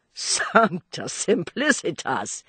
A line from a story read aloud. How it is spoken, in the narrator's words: he exclaimed